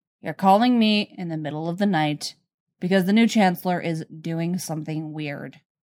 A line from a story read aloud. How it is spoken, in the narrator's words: Flatly, he says